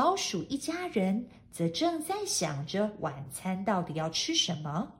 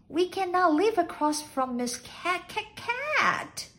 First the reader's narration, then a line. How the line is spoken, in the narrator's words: squeaked Mr